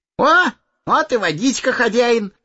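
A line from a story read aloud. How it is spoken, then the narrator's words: Cheerful. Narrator (Russian): весело сказал он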